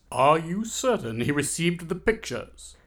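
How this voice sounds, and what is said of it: British accent. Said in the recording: “a man with a British accent”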